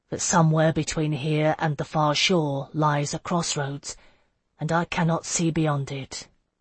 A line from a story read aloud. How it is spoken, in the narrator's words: he said softly